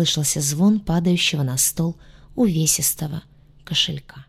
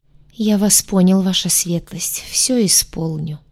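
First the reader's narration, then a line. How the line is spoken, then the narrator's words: Hopeless sinking voice. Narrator (Russian): обреченно произнес некромант упавшим голосом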